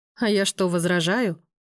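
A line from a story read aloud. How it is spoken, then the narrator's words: Muttered grumble under breath. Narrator (Russian): про себя проворчала Руся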